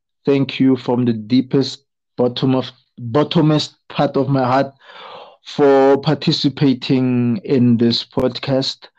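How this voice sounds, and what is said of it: Raspy, exhausted voice. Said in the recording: “I have exhausted my voice. I'm not sure if you noticed, but my voice is raspy because I have spoken so much with so much emotion.”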